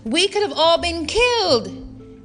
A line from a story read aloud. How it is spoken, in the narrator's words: She shouted